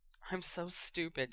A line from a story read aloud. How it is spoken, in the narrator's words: she mumbled, sniffling